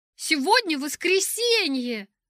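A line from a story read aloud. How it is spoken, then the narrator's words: Exclaiming. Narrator (Russian): воскликнул тот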